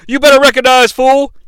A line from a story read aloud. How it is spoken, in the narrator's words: he yells at Stone Cold Steve Austin